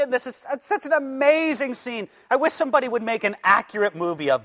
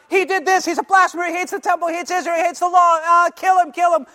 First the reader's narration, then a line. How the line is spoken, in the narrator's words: Everybody's shouting